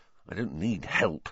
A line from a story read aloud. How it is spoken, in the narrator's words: Ron whispered